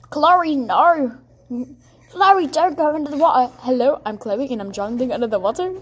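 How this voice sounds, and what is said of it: Put-on indie-style character voice. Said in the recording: “do that like indie voice thing”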